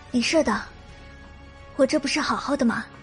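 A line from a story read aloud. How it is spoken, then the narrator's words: Hushed, comforting. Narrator (Chinese): 花琪儿只是压低了声量，安慰着花婶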